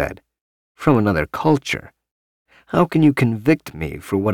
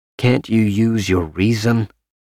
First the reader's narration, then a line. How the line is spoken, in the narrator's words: Parsons said stiffly